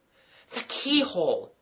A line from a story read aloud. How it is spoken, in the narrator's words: he cried